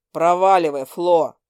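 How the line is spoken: Rough bark. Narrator (Russian): грубо рявкнул он

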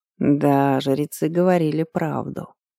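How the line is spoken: Lazy, insolent tone. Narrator (Russian): произнес он лениво и вместе с тем нахально

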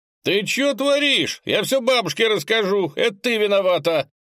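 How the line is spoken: Boy yelling from ground. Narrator (Russian): завопил Сережка, пытаясь встать с земли

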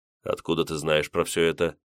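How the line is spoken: Dry question. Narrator (Russian): сухо спросил я

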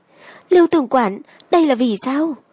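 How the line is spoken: Trembling question. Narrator (Vietnamese): Tiểu thái giám kia, giọng run run rẩy hỏi

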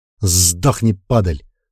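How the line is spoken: Angry cursing from behind. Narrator (Russian): зло бронил за моей спиной Бран

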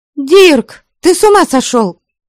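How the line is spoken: Sharp shout. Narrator (Russian): прикрикнула я на него

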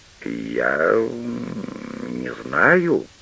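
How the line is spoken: Drawn-out drawl. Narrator (Russian): протянул ротмистр

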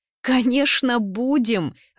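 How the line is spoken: Joyful shout. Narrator (Russian): радостно выкрикивает Даша

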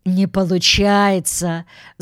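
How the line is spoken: Giving up, laughing loudly. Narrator (Russian): Сдался он наконец и снова захохотал

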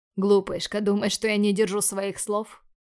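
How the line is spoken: Snorting. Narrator (Russian): я хмыкнул

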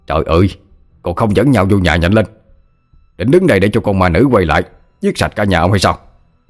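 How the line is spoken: Sharp shout. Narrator (Vietnamese): tiếng quát của thầy Tám

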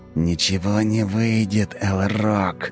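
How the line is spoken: Angry hiss. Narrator (Russian): зло прошипел мне в лицо Тиракл

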